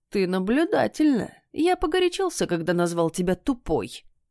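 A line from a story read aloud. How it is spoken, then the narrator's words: Sly chuckling cat. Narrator (Russian): ехидно посмеивался кот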